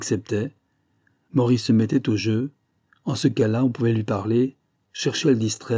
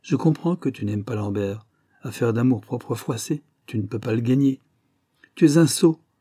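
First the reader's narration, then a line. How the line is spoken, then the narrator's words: Curt dry reply. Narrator (French): répondit sèchement Maurice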